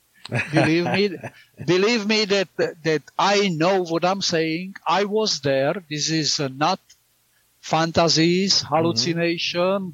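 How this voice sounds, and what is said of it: Speaker's own foreign accent. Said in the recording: “Don't listen to my accent.”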